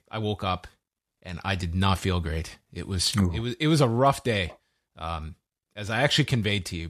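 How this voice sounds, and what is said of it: Slightly hoarse voice. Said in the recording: “you can hear my voice is a little, still a little hoarse”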